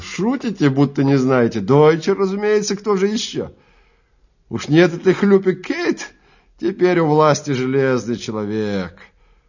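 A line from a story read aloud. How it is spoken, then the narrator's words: Giggling. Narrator (Russian): Человек за конторкой хихикнул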